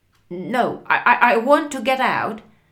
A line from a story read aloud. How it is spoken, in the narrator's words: shouted Frank